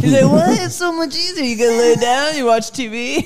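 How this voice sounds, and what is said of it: Imitates another person's voice. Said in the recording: “Your imitation of Casey is like borderline Bobcat Goldthwait.”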